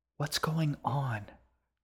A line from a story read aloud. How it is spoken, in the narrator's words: Ji whispered to her brother